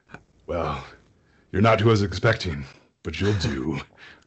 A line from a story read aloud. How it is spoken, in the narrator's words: They both snarl at you and say